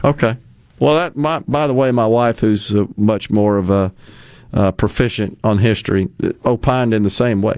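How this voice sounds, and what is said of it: Southern American drawl. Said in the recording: “we have the accent that we do ... the Southern drawl and Southern English”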